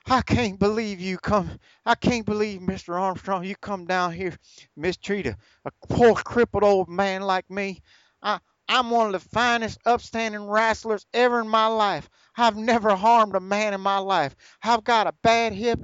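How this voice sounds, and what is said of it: Ron Wright impression, cracking country southern accent. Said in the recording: “Ron Wright is cracking his voice in that country southern fucking accent”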